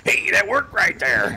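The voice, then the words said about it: Imitates another person's voice. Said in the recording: “That's a good impersonation. That sounded like him.”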